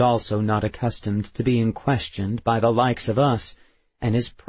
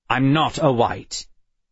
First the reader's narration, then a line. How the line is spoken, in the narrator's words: Bentham said sharply